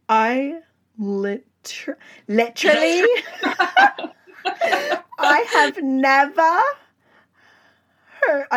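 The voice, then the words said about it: Put-on British accent. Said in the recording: “I don't know how to continue the British accent.”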